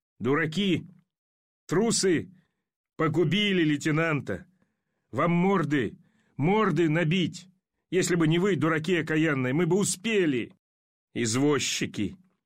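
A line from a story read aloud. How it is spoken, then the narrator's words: Frenzied furious shouting. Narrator (Russian): с неудержимым бешенством он закричал в неистовстве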